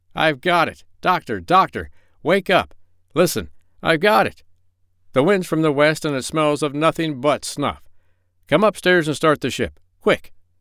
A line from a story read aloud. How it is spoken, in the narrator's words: he cried